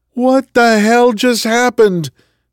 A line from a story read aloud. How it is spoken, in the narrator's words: Marcus shouted